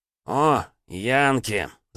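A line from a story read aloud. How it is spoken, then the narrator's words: Growling. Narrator (Russian): зарычал он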